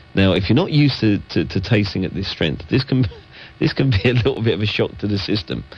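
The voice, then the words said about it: Congested voice with a cold. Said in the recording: “you can probably tell I've got a little bit of a cold”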